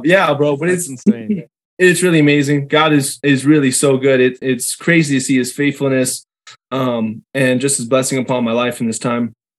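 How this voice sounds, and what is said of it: Hoarse voice, losing voice. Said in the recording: “I got sick over the weekend. I'm losing my voice.”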